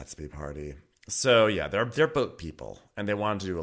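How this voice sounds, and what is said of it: Usual voice. Nothing is said of it.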